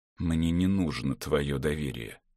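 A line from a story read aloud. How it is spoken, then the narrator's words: Through gritted teeth. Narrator (Russian): процедил Руфус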